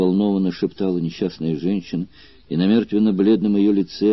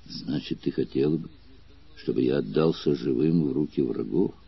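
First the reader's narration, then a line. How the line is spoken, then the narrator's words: Quiet, angry man. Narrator (Russian): произнес тихо, но гневным голосом вождь гладиаторов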